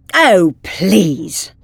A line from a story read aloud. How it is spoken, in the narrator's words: scoffed the Doctor